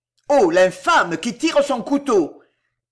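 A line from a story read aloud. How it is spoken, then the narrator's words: Running man shouting. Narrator (French): cria un homme accourant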